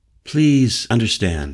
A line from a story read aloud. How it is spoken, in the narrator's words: she said, her voice rough with emotion